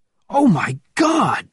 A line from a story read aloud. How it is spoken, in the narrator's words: he cried